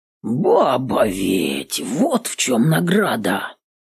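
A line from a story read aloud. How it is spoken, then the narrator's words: Hoarse rasp. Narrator (Russian): Прохрипел Пугас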